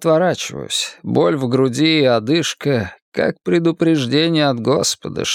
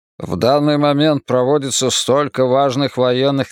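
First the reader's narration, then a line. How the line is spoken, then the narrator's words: Irritated speech. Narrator (Russian): раздраженно говорит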